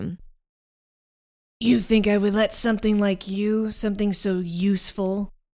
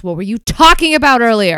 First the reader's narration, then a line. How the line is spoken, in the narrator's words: Penny swings at him, she yells